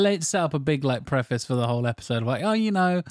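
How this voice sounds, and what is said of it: Usual voice. Nothing is said of it.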